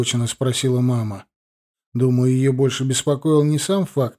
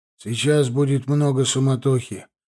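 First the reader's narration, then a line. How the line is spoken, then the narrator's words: Gloomy. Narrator (Russian): мрачно сказал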